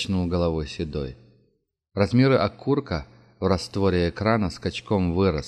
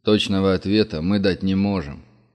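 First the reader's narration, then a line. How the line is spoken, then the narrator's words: Deep bass voice. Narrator (Russian): пробасил генерал Лещенко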